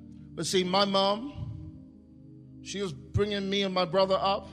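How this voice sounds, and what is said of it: Usual voice. Nothing is said of it.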